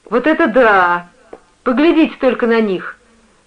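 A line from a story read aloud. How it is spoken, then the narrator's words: Girl shouting. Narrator (Russian): выкрикнула девушка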